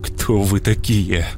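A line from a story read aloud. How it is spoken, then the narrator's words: Strained. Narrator (Russian): вновь выдавил я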